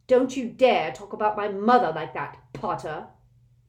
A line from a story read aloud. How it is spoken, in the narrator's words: Malfoy snarled